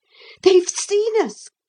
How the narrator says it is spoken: cried Philip

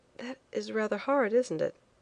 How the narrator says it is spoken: I said quietly, forcing a smile that was on the lips but came from nowhere near the heart

